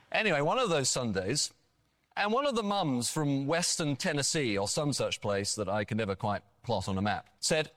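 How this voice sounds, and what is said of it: Pleasing foreign accent. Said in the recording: “I love your accent. ... I could listen to you read the phone book.”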